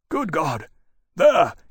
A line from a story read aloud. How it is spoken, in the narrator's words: he said urgently